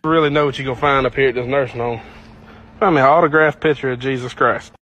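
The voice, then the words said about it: Southern accent, words slurred together. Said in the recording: “that southern accent right there where the words were all slurred together”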